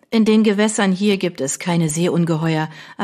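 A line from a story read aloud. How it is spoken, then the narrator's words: Firm voice. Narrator (German): erwiderte Mary mit fester Stimme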